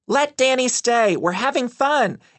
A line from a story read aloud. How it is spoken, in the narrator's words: Anna shouted back at her father, hoping to convince him to let me stay